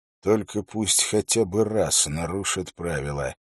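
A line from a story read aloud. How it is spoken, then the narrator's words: Muttering. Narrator (Russian): пробормотал он Уиллу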